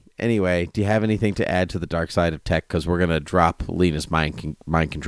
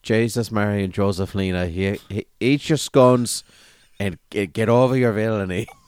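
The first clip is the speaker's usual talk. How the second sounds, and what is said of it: Put-on Irish accent. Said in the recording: “she got to do it in an Irish accent ... I'm so sorry to any of our Irish listeners or listeners of Irish descent”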